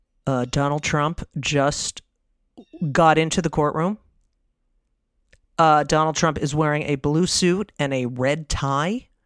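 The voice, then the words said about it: Imitates a TV news reporter. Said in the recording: “my impression of watching the indictment on television”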